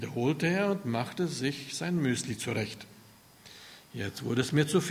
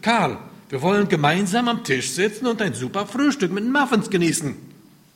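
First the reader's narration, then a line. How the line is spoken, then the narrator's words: Barking. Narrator (German): bellte ich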